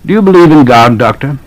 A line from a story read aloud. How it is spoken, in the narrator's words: the question was put in an ordinary tone